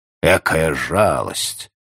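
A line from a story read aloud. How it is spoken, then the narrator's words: Grumbling. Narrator (Russian): проворчал палач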